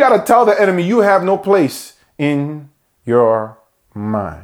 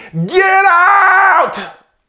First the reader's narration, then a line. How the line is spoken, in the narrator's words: scream